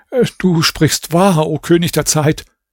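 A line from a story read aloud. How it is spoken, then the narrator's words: Stammering. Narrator (German): Raschid sagte stammelnd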